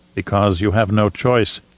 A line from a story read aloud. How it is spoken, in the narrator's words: she said in a low, hard voice